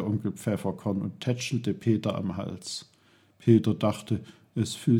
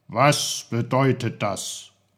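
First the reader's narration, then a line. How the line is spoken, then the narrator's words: Very stern question. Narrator (German): fragte Onkel Pfefferkorn mit seiner strengsten Stimme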